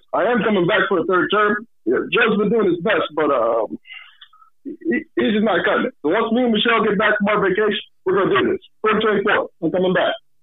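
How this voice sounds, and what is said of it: Imitates another person's voice. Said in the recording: “do a really good Obama impression”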